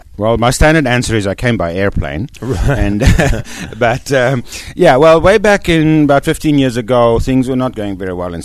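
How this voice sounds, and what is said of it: South African accent. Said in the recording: “You're from South Africa. ... That's right, as you can tell from my accent.”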